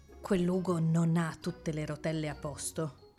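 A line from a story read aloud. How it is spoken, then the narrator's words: Whispering. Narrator (Italian): sussurrò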